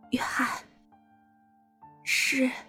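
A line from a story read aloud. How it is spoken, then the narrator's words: Choked, low voice. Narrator (Chinese): 萨利哽塞着低声说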